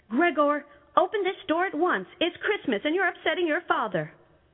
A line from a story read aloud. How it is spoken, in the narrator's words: his mom knocked on the door and yelled